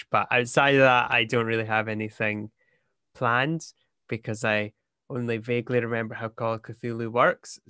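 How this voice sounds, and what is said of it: Scottish accent. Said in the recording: “my actual accent and voice and just go with being Scottish”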